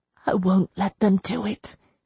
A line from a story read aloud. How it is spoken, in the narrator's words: she whispered